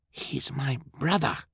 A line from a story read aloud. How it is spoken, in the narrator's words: Fiona replied in a fierce whisper